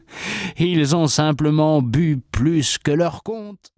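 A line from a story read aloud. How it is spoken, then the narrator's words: Laughing replies. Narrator (French): répondaient en riant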